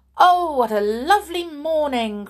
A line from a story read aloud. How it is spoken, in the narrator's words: cried Cinderella